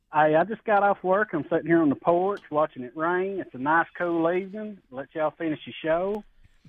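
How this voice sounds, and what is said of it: Southern twang. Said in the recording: “Got a little extra twang today there”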